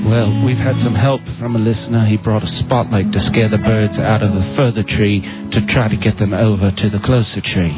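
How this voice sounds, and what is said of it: Put-on British accent. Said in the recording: “he's using the British accent. ... For the British accent.”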